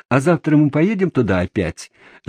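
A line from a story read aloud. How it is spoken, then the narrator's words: Excited shouting. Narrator (Russian): закричали они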